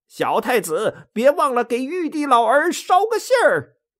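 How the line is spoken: Shouting from afar. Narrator (Chinese): 孙悟空只是远远的喊着

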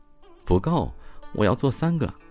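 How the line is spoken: Soft, coquettish. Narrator (Chinese): 女子明媚一笑，低声娇嗔

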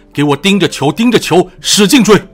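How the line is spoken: Roaring. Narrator (Chinese): 文武兵身后的咆哮

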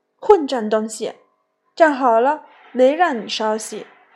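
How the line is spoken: Stern, harsh shout. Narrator (Chinese): 我前妻厉声喝道

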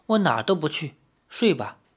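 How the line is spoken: Soft gentle voice. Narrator (Chinese): 李逍遥柔声地说

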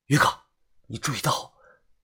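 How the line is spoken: Breathless. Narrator (Chinese): 我喘着气说道

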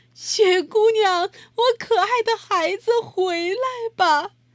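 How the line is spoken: Crying call. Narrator (Chinese): 马露莎哭了很久，喊着

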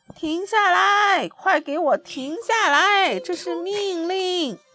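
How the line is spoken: Shouting while running. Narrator (Chinese): 他边跑边叫

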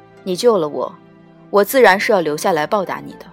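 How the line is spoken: Flat, indifferent. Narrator (Chinese): 淡淡道

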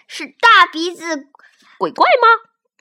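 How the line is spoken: Shout. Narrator (Chinese): 警长喊道

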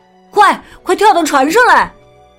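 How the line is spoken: Shout. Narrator (Chinese): 雅克喊道

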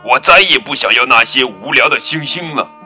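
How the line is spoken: Angry roar. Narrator (Chinese): 坏脾气的格拉夫冲着小兔子怒吼

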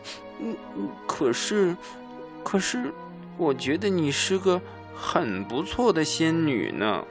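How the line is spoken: Sniffling mumble. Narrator (Chinese): 哈瓦尔吸吸鼻子，嘟囔着说

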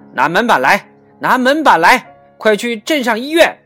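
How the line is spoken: Urgent shout. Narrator (Chinese): 桑乔一见，大喊

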